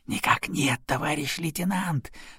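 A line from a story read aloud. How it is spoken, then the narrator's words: Whispered reply. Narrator (Russian): тоже шепотом ответил он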